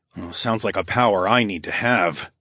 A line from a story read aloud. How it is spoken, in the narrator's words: I growled